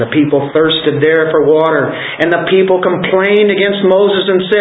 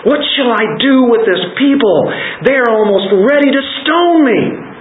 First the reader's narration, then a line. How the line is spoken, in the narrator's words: Moses cried out to the Lord saying